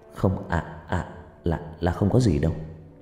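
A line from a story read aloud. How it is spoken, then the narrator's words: Stammered. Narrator (Vietnamese): Cậu lắp bắp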